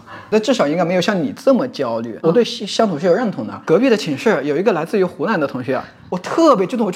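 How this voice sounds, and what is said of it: Mandarin with slight regional accent. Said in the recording (Chinese): “我这个呃普通话带有一点方言的口音”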